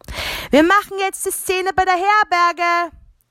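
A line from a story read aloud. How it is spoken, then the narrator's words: Calling out, pastor. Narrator (German): rief Pfarrer Eberstein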